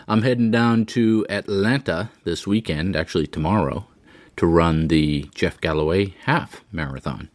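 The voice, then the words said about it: Congested voice from a cold. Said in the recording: “I've got a bit of a head cold today, so I apologize for the super sexy voice”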